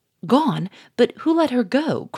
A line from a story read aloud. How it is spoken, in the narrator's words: cried Gouchard